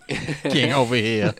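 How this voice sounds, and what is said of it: Put-on New York accent. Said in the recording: “your New York accent”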